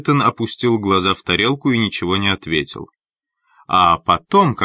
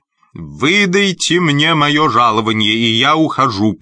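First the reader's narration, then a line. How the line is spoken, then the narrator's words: Booming man. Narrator (Russian): прогремел он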